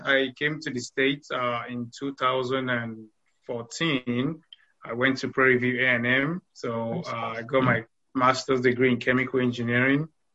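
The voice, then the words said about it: Slight Nigerian accent. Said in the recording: “you have a little bit of an accent. ... originally from Nigeria.”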